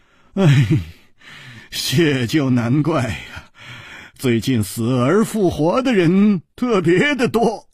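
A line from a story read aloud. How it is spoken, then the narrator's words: Laughing. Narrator (Chinese): 楚留香笑着说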